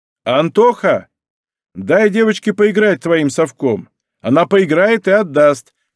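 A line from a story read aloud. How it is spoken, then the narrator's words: Shout. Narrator (Russian): крикнул Давид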